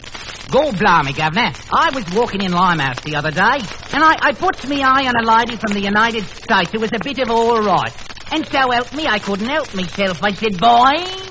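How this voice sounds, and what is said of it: Strong put-on Cockney English accent. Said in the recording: “An Englishman. ... An Englishman. ... Limey. ... Limey or Cockney, that's exactly right. What about Bill Foreman's accents? Weren't they strong?”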